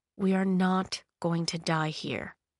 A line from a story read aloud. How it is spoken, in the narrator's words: Thorn said, his voice soft and reassuring